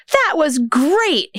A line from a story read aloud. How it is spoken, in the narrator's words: he yelled